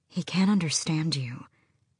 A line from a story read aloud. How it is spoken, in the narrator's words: Asterin said quietly